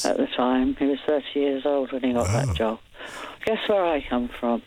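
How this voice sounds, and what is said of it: English accent from Cambridge. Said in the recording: “what about my accent? ... You come from Isle of Wight? ... Where does your accent come from? ... Cambridge. ... I knew it wasn't Oxford.”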